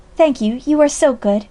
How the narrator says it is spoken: she brought up happily

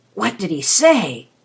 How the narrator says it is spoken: asked the Rat hoarsely

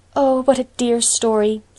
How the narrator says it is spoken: sighed Anne

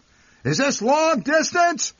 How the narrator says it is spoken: he would shout into the receiver

